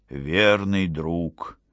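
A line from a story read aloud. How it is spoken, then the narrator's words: Whisper. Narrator (Russian): прошептал он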